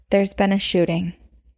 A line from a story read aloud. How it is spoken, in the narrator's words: he said in a very calm voice